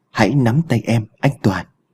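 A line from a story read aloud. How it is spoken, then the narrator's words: Strange trembling voice. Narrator (Vietnamese): run rẩy đã lên tiếng, giọng nghe khác lạ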